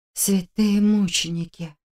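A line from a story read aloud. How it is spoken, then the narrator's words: Whisper. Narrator (Russian): прошептала я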